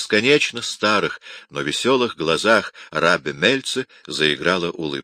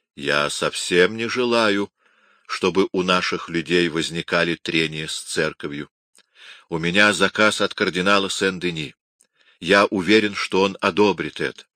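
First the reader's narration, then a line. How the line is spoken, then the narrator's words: Quiet, thoughtful speech. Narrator (Russian): Задумавшись на минуту, Рабби тихо сказал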